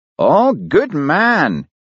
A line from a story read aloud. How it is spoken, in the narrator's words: exclaimed Daviot